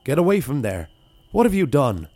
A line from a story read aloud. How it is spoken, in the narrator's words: cried Paddy Ian at the beast